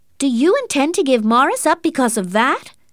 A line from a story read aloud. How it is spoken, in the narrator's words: her aunt shouted